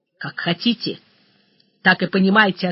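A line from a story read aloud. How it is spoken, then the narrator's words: Sharp reply. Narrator (Russian): ответил Груздев резко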